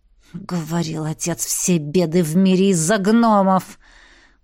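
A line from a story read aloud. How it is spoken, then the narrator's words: Hissed. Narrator (Russian): Прошипел маг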